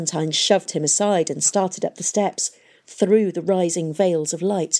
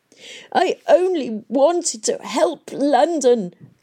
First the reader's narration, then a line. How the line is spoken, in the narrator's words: the old man sobbed